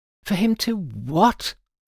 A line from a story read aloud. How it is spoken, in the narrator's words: I squeaked